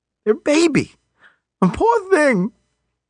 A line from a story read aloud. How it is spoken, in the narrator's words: choked up